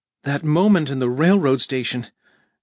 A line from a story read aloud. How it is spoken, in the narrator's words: she nervously burst out